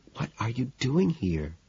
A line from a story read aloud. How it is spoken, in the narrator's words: whispers